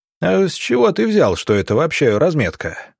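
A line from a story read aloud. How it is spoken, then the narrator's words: Amused short laugh. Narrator (Russian): хохотнул сыскарь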